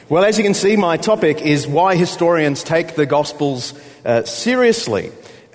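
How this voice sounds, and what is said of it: Australian accent. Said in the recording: “it's been about 10 years since you've had an Australian in the pulpit ... I'll pick up to a normal Australian pace”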